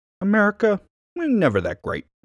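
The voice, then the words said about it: Imitates another person's voice. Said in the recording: “I love that accent. I love that accent. ... That's my Cuomo impression.”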